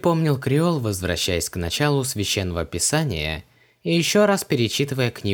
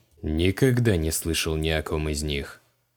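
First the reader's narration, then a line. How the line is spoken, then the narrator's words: Grumbled. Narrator (Russian): буркнул Креол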